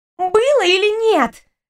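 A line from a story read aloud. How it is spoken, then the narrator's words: Demanding exclamation. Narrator (Russian): требовательно воскликнула рыжая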